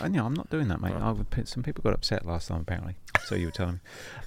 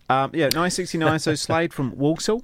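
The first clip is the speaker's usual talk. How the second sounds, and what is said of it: Terrible put-on Walsall accent. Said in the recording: “That was a terrible Walsall accent”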